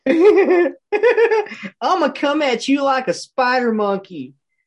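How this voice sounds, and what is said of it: Impression of Ricky Bobby kids. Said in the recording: “impersonating the kids from Ricky Bobby ... That sounded perfect.”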